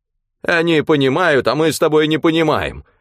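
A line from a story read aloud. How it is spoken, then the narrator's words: Loud speech. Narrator (Russian): громко заговорил он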